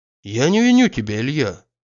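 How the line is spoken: Friendly, gentle. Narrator (Russian): дружески, мягко продолжал Штольц

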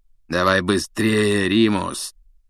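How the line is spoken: Hoarse urging. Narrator (Russian): сипло поторопил его Блэк

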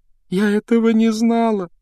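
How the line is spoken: Sobbing. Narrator (Russian): рыдала Джинни

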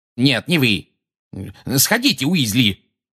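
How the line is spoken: Barked shout. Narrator (Russian): гаркнул Фадж

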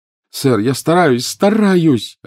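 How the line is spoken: Desperate cry. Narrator (Russian): отчаянно вскрикнул Гарри

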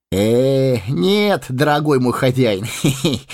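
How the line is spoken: Giggling. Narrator (Russian): хихикнул он

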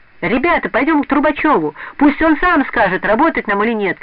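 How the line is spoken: Shouting. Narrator (Russian): кричала Надя Глушкова

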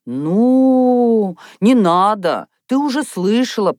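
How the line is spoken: Drawn-out drawl. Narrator (Russian): протянула Софья Михайловна

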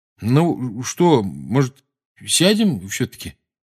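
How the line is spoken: Hesitant suggestion. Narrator (Russian): неуверенно предложил Рон

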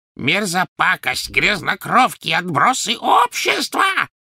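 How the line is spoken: Shrieking. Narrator (Russian): завизжала она им вслед

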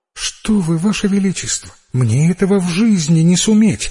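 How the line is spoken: Frightened child's reply. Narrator (Russian): испуганно ответила девочка

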